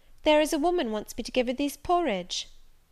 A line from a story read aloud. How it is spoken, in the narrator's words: she exclaimed